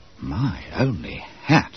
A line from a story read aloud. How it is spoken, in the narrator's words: Bob Cherry murmured to Wharton